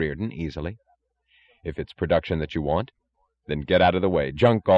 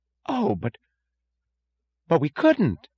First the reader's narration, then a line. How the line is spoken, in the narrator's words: gasped Mooch